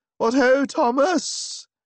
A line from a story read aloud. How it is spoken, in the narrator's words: I cried